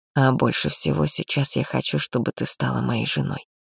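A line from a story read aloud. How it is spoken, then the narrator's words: Unexpectedly serious declaration. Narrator (Russian): неожиданно серьезным тоном заявил Гира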